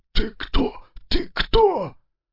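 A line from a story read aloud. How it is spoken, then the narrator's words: Wheezing rasp. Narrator (Russian): Я только и смог просипеть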